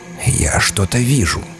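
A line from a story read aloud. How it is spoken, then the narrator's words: Whisper. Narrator (Russian): прошептал Кензер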